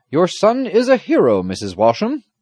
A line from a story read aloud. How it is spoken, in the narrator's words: the squire exclaimed